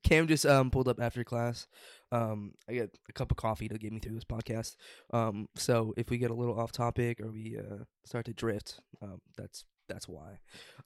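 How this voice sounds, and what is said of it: Groggy voice. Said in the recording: “my voice is a little groggy”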